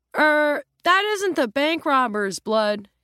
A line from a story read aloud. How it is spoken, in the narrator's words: he blurts out cheerfully